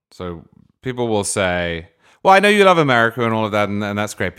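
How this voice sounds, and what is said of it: British English accent. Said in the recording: “Britons who hear my accent and assume I agree with them”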